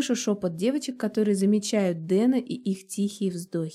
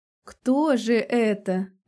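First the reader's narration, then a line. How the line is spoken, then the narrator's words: Little sister's mocking question. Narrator (Russian): насмешливо спросила сестренка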